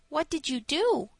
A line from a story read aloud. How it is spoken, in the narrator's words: asked, his voice full of sympathy